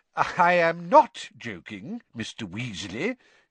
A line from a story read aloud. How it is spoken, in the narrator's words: he said